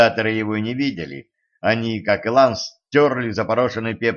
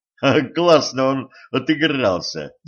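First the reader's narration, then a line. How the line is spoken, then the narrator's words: Laughing. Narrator (Russian): засмеялся стажер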